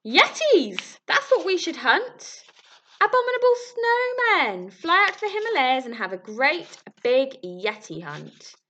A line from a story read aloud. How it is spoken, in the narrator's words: he squeaked